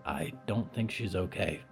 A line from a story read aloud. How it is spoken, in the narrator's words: Percy whispered